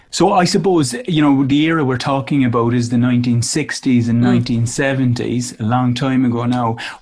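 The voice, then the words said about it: Strong Irish accent. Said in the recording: “his strong Irish accent”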